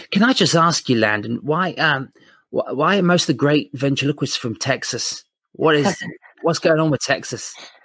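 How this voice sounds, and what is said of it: Quiet, near-whispered speech. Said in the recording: “I probably sound like I'm whispering”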